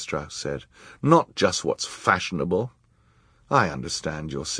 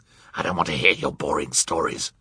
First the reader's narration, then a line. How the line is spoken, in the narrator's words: Count Olaf snarled